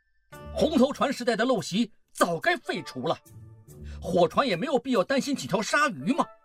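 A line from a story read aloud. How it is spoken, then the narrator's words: Shouting. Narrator (Chinese): 孟梅喊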